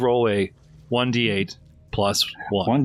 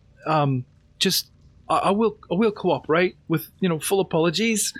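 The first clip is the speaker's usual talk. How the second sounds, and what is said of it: Character voice with an accent. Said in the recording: “I hope this is close to my original accent”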